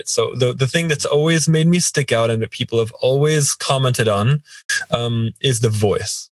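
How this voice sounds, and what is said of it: American international accent with British touches. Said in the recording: “my specific accent, which is kind of a fake accent... American international school accent... mixed with, you know, what I've picked up from the UK”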